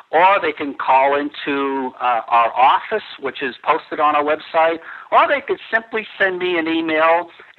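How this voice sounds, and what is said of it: Strong Boston accent. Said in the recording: “I'm from Boston. I probably have a very strong Boston accent ... an R doesn't sound the same to everyone in the world”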